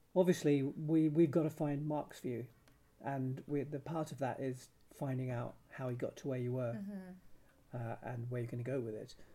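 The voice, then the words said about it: Strained, fading voice. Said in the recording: “excuse me, I'm losing my voice.”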